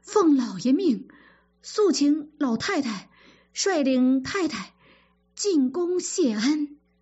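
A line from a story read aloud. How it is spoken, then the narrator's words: Breathless stewards reporting. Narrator (Chinese): 赖大等3、4个管家气喘吁吁地跑来报告说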